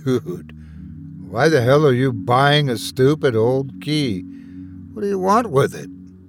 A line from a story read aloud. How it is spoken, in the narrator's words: I sighed